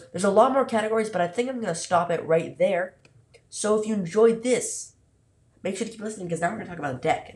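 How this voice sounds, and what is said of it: Sick, funny-sounding voice. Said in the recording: “don't you dare tell me that my voice is funny, okay? I know I'm sick.”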